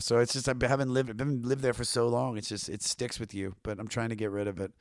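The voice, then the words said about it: Baltimore twang accent. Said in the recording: “people seem to like the Baltimore twang ... this accent”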